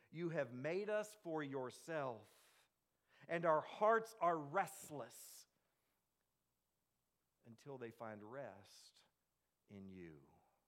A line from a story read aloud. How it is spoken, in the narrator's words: he cried out to God saying